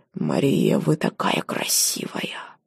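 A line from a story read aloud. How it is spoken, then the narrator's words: Hoarse wheeze. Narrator (Russian): Он прохрипел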